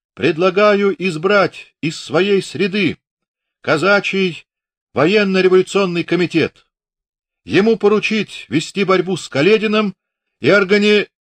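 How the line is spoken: High ringing shout. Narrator (Russian): так же тонко, заливисто и голосисто, как на травле волка, Кривошлыков крикнул

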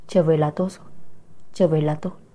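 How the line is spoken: Gentle, laughing. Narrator (Vietnamese): Lạc Gia Thần nhẹ nhàng cười nói

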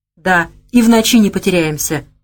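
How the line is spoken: Laughing. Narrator (Russian): подхватил Савелий и рассмеялся

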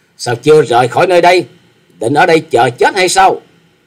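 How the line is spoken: Young woman's angry shout. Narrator (Vietnamese): Thiếu nữ áo đỏ đứng sau lưng của Hà Xà tiên tử thấy thê nổi giận hét to

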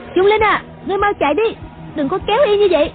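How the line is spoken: Loud shout. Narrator (Vietnamese): Uyển Thanh cao giọng quát

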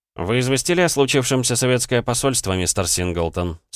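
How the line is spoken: Plain question. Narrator (Russian): спросил Андрей

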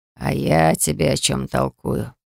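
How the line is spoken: Relieved grumble. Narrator (Russian): проворчал хранитель, но на этот раз с облегчением в голосе

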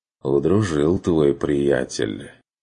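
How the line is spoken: Crushed, dejected sigh. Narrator (Russian): убито вздохнул Лэнс

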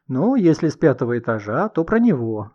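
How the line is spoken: Laughing. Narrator (Russian): засмеялась Елена Дмитриевна

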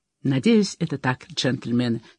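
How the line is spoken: Quiet reply. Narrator (Russian): негромко отозвался Кейта

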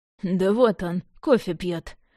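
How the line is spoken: Snort. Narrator (Russian): хмыкнул Яблонев

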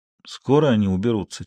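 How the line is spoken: Quiet question. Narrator (Russian): тихо спросил тот

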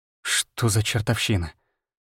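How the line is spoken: Muttered. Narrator (Russian): Пробормотал

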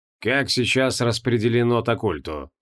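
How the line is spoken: Businesslike question. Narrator (Russian): спросил он уже новым деловым тоном

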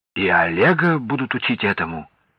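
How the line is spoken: Uncertain question. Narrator (Russian): неуверенно спросил Федор Иванович

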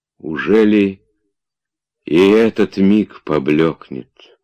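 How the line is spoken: Sad inner voice. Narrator (Russian): почти печально думал он

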